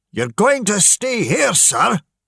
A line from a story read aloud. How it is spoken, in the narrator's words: shouted William angrily